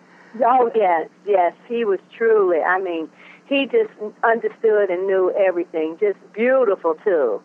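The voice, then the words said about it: Southern American accent. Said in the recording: “you're sounding like you got more of a Louisiana accent than a Cleveland accent ... I'm from the South, North Carolina ... That's not a Cleveland accent.”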